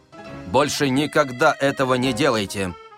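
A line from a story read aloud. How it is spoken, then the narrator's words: Stern. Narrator (Russian): строго сказал почтовик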